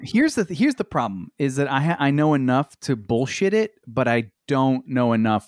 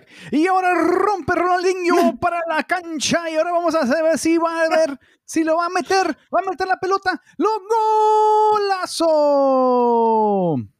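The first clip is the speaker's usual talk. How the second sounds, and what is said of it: Spanish-language soccer announcer voice. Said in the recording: “my Spanish announcer voice ... You should be a soccer announcer.”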